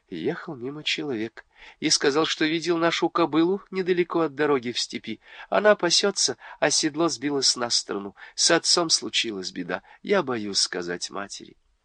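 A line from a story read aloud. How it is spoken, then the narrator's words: Agitated whisper. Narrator (Russian): Юлдус взволнованно шептала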